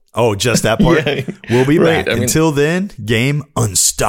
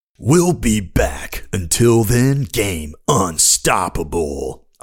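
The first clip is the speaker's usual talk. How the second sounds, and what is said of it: Halo announcer impression. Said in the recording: “do the Halo announcer voice ... That's pretty close.”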